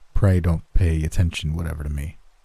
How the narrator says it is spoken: muttered the astronomer

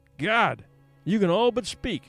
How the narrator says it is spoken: John Thornton would reverently exclaim

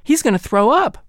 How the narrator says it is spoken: my sisters cried

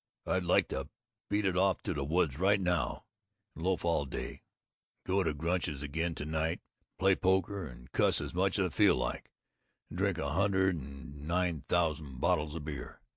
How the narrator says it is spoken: He astoundingly grunted

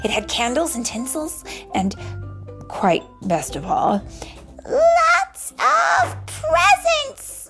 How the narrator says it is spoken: he gasped

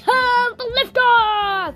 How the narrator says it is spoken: he cried

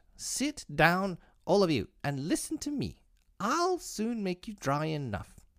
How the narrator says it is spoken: the mouse, who seemed to be a person of authority amongst them, called out

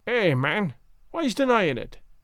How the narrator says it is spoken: said my uncle

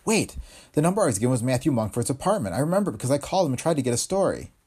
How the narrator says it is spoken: she added quickly

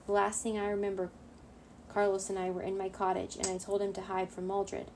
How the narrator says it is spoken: Diego said

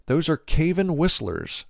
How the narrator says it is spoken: says Mosep

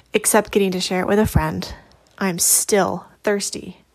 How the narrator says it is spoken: I answered

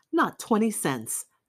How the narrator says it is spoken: snapped Halejian

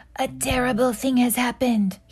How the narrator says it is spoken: shouted

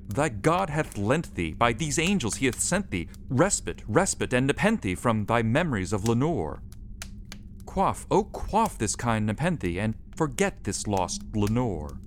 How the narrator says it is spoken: I cried

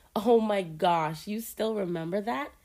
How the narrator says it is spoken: I asked, laughing

